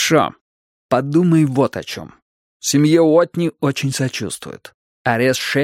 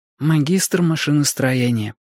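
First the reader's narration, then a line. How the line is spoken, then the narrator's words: Mumbled. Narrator (Russian): пробормотала она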